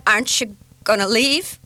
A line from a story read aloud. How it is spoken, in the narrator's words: she blurted